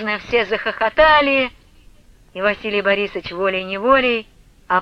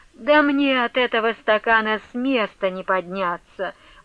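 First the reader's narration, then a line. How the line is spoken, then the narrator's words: Pleading voice. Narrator (Russian): молящим голосом проговорил посол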